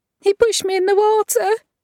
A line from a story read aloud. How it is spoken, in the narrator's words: screams the girl